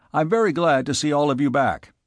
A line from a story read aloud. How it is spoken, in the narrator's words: he said curtly